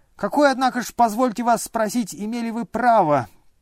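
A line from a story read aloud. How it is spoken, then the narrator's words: Heated shrill squeal. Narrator (Russian): провизжал опять Ипполит, но уже чрезвычайно разгорячась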